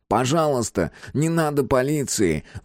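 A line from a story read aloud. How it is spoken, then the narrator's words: Pleading. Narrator (Russian): взмолился Карл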